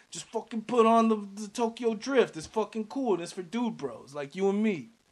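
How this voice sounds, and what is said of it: Put-on dude-bro character accent. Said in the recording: “What the fuck kind of accent was that? ... I'm fucking Bobby Bottle Service.”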